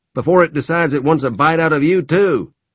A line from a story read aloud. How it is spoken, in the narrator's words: shouted